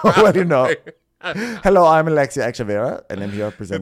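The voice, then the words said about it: Impression of Alexia Echeverria. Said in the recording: “my accent's kind of like veering into Alexia ... I was trying to infuse like the lightest Jamaican accent ... I managed to somehow become Alexia.”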